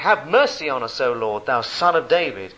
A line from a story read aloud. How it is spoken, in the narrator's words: they cried out the more, saying